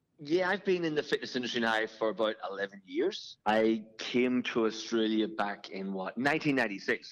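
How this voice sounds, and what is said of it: Irish accent. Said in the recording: “you can probably tell by my my accent. I'm uh, I'm not originally from here. I come from I come from Ireland.”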